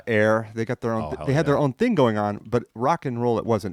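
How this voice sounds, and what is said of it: French accent. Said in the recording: “I grew up in France. I came here a long time ago. Hence this accent I've got.”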